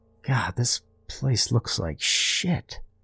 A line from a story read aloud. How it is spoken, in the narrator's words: Brian muttered under his breath to himself